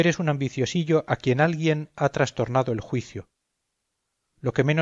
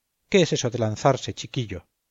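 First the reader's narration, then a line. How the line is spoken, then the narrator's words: Plain question. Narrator (Spanish): me preguntó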